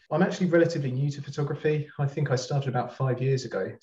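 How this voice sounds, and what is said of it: Southern English accent. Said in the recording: “I'm not from there, as you can probably tell by my accent. I'm from Brighton”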